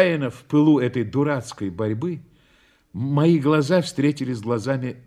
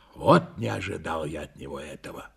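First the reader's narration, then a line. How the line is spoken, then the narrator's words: Grumbling, breathing heavily. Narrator (Russian): Тяжело дыша, проворчал я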